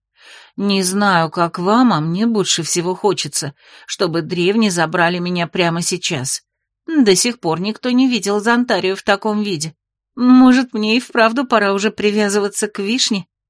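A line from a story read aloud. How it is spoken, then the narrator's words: Grim joking. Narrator (Russian): Мрачно пошутила Окти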